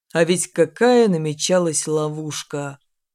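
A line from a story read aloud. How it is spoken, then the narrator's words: Guileless sigh. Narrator (Russian): вздохнул бесхитростный Патрик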